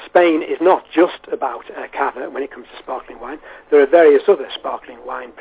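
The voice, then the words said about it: Wirral English accent. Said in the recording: “I'm actually from the Wirral Peninsula, as you can possibly tell from my accent”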